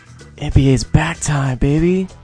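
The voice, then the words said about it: Creepy close-mic whisper. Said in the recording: “do you sound like a creeper? ... I was whispering into the damn mic ... like one of those ASMR videos”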